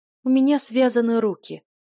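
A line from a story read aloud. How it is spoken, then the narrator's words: Exclamation. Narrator (Russian): воскликнула Юля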